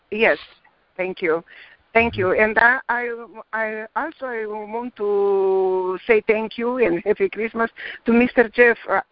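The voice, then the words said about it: Romanian accent. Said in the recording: “that one lady with the accent? ... I'm Romanian.”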